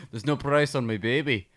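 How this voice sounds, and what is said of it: Weak put-on Scottish accent. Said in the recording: “My Scottish accent's gonna get better as the episode goes on. ... It needs work.”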